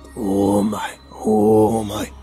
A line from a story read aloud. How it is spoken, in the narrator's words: It growled